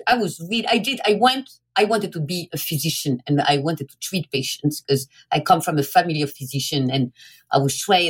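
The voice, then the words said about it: French accent. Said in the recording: “I was trained in France, hence my accent.”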